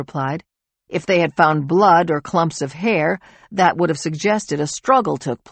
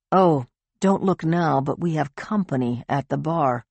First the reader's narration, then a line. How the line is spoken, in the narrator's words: Alex said in a low voice